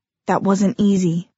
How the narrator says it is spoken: Clary whispered back

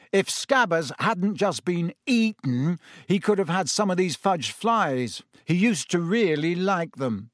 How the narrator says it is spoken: Ron chose that moment to say loudly

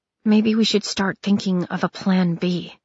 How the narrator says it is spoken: Kress murmured

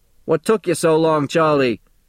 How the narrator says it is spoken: shouts Gimpy from the doorway to the back of the bakery

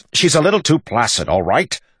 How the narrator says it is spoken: Waxillium snapped

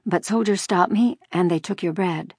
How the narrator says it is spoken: she said, her voice quavering

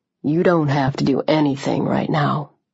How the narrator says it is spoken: said softly

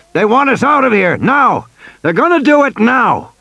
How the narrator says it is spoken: Muldoon shouted in Grant's ear

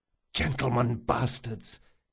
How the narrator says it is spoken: hissed Locke

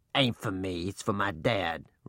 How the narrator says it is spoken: Reuben growled

